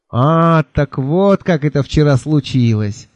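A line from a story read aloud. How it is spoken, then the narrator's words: Knowing sigh. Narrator (Russian): понимающе вздохнул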